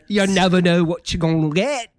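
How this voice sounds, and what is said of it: Attempted British accent. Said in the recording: “Now you went British too. We always just go British. ... That was kind of a Southern Britain.”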